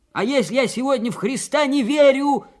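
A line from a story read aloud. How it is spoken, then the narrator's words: Old man shrieking. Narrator (Russian): завизжал дед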